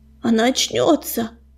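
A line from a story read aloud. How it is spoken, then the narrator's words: Hoarse, strained words. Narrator (Russian): хрипло выдавил он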